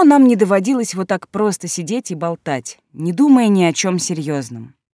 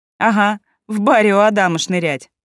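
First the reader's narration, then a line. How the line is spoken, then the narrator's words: Laughing. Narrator (Russian): засмеялась я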